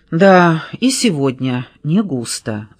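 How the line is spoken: Sighing. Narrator (Russian): вздохнул Реми

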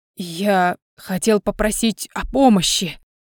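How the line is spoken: Barely audible mumble. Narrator (Russian): почти неслышно пробормотал Саймон

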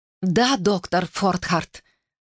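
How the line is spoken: Breathy exhale. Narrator (Russian): выдохнула Глориан

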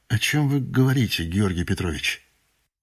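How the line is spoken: Tired question. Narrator (Russian): устало спросил

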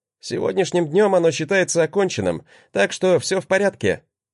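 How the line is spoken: Snorted. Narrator (Russian): хмыкнул

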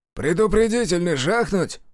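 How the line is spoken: Breathless exhale. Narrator (Russian): выдохнул Саватеев

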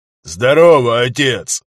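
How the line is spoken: Loud bark. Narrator (Russian): гаркнул Виталик

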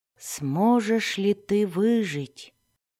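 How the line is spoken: Whispered. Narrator (Russian): прошептал Зак

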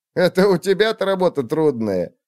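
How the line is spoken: Scoffing snort. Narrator (Russian): хмыкнул Фрэнки

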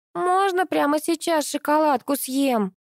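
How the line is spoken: Child's shout. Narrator (Russian): закричал рядом детский голосок

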